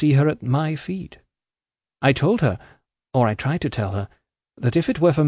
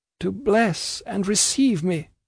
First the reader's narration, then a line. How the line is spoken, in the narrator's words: groaned my mother